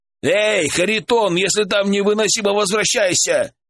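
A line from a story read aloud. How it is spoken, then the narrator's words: Shouting. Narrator (Russian): крикнул Александр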